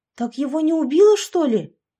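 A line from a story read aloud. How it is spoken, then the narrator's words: Exclamation. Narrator (Russian): воскликнула Яшка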